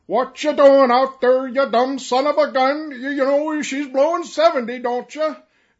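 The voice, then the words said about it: Put-on Norwegian accent. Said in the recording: “pardon the, you know, the accent ... it was a Norwegian fellow ... an old seaworthy Norwegian”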